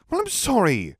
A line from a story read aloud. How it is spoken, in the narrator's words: replied hotly